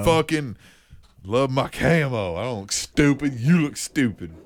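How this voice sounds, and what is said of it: Put-on male Southern accent. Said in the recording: “a Southern accent ... that was a very male accent”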